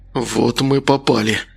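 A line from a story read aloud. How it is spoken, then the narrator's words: Breathed out. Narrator (Russian): выдохнул Макар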